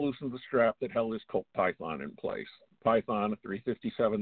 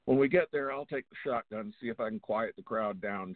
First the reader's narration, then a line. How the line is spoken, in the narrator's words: James said